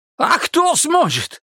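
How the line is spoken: Shrieked. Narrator (Russian): взвизгнул Мамед

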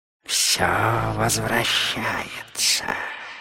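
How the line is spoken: Satisfied smoky hiss. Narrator (Russian): удовлетворенно прошипел Слир голосом, похожим на завитки дыма

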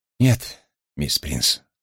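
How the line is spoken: Sighing. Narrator (Russian): вздохнул я

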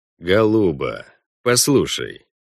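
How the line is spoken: Gentle, unsettlingly sweet. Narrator (Russian): ласково сказал он

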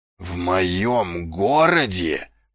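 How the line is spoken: Growled. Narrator (Russian): прорычал он

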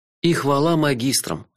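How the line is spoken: Sighing. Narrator (Russian): вздохнул я

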